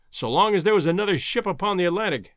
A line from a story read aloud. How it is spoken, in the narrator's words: exclaimed Professor Summerlee heartily